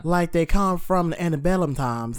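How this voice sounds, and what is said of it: Exaggerated stereotypical Southern accent. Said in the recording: “it's like a stereotypical southern accent that, like, people who aren't from the South play ... whenever you do a southern accent in, like, Broadway ... none of them know how to properly speak southern ... they always sound like this”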